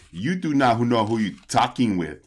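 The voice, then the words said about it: Put-on Russian accent, sounds Austrian. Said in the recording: “throw out their old Russian accent ... Does the Russian sound Austrian? Because that sounded a lot like your Arnold accent.”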